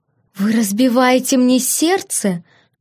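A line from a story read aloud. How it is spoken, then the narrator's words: Theatrical exclamation. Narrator (Russian): воскликнула Кати, театрально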